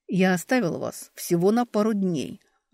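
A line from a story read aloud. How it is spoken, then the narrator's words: Growled. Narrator (Russian): рыкнул Эберт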